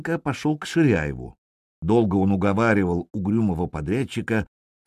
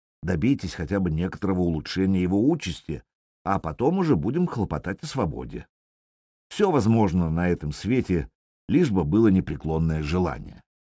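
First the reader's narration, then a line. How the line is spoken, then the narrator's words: Quiet. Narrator (Russian): тихо сказал Сашенко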